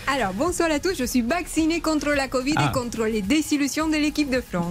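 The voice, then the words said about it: Accent like Omar Da Fonseca's. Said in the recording (French): “Elle a le même accent que Omar Da Fonseca, mais elle, on comprend ce qu'elle dit.”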